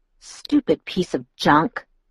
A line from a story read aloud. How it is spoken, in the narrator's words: I muttered